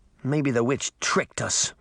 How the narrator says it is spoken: Sabrina said bitterly

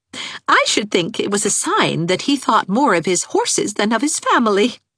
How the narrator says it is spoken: laughed Anne

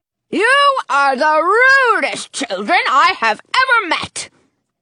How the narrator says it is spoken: Dottie bellows

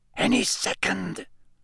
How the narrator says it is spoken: Lee Jordan whispered

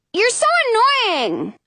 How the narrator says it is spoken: I yell

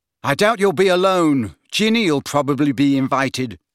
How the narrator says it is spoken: snapped Ron, who did not seem to have taken kindly to being ignored by Slughorn

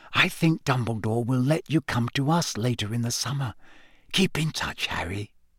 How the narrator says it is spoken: whispered in his ear

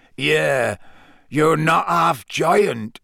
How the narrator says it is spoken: said Hagrid croakily

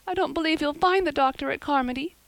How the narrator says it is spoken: sobbed Diana

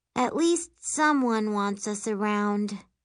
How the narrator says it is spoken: Miri says with a sigh

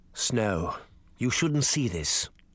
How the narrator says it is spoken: Charming said softly

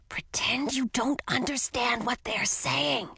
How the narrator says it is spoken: I whispered

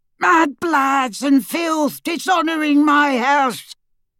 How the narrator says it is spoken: his yell

